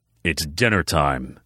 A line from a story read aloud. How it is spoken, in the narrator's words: he grumbled